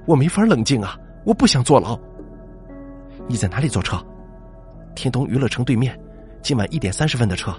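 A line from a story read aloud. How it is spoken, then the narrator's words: Trembling loud shout. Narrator (Chinese): 连佩颤抖的声音大声喊道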